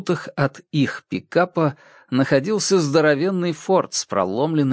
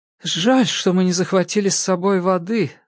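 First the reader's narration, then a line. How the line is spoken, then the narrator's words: Sigh. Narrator (Russian): вздохнула Джерри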